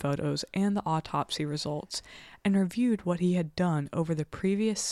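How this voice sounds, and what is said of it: Usual voice. Nothing is said of it.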